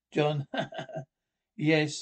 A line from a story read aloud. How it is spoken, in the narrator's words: I laughed